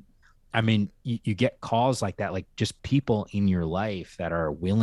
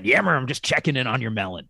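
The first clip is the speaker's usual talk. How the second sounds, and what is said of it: Raspy thick coach voice, Alioti impression. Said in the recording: “worst Al Yodi impression, but he's got that, you know, that raspy, thick voice, coach's voice”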